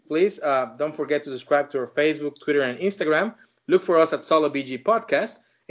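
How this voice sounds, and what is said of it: Non-native English accent. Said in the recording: “What do you think about my accent?”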